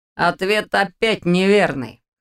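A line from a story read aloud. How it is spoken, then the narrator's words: Skeptical snort. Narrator (Russian): хмыкнул Ваня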